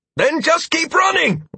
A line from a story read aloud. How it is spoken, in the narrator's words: I yelled at the cat